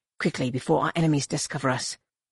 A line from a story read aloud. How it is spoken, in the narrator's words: Gnome Anur whispered fiercely